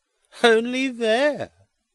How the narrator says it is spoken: cries Edwin Drood, with a contemptuous laugh

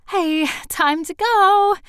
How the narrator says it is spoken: Jeanette said cheerfully

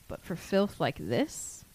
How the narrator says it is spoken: Moody said softly

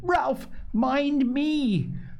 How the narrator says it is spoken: Piggy screamed

